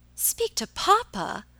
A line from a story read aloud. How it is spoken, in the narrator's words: exclaimed Alicia